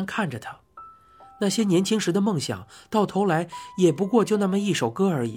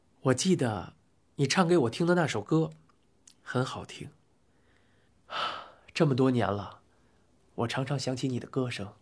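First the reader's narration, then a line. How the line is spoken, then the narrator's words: Gentle, smiling. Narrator (Chinese): 波利的脸上的笑容变得温柔，说道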